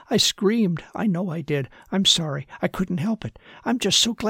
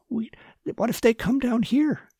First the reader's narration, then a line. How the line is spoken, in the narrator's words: she asked with a gasp of horror